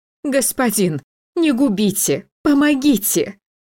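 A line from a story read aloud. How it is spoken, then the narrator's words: Incoherent, bitter sobbing woman. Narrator (Russian): Ее бессвязную речь прерывали горькие рыдания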